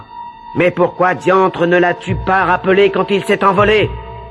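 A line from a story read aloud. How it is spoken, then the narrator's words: Sultan yelling. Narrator (French): hurla le sultan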